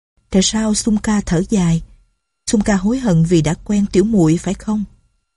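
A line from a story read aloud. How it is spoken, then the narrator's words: Gentle. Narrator (Vietnamese): Doanh Doanh dịu dàng nói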